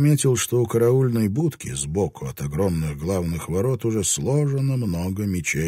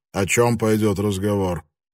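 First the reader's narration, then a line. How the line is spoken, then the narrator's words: Gloomy question. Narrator (Russian): мрачно спросил Ябу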